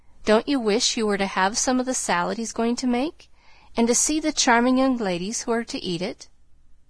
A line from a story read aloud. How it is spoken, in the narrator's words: Amy said, laughing